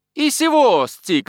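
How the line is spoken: Skipper shouting. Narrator (Russian): закричал шкипер

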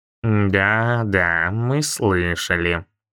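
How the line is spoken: Low booming bass. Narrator (Russian): низким басом прогудела она

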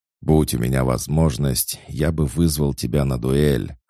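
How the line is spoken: Growling, gurgling. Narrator (Russian): рычал островитянин, продолжая булькать

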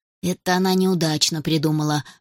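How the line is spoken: Grumbling to himself. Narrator (Russian): ворчал про себя Оля Александр

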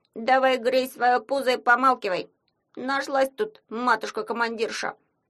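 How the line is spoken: Grumbling. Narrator (Russian): заворчал на кошку кукла Ваня

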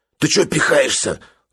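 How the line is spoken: Whiny, hoarse, sickly. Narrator (Russian): заныл другой голос, хриплый и больной

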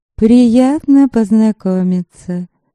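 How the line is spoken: Purred. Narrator (Russian): мурлыкнула Лиля

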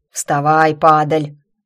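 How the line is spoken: Hoarse bark. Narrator (Russian): рявкнул хриплый голос

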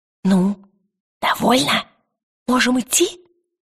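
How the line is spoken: Whisper. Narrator (Russian): прошептал он

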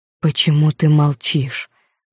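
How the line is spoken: Hoarse, quiet voice. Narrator (Russian): произнес он хриплым, тихим голосом

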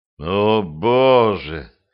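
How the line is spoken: Strained gasp. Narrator (Russian): выдавил бледный

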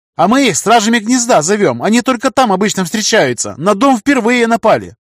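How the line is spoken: Yelling amid gunfire. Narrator (Russian): орала Алиса, стреляя в мутанта из винтовки

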